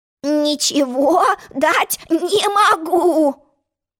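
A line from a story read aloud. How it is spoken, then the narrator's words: Grumbling sheep. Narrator (Russian): проворчала овца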